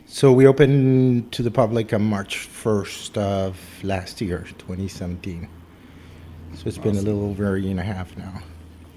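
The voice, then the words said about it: Slight foreign accent, not Canadian. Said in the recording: “people could probably get the idea from your accent a little bit there that you didn't originate in Canada”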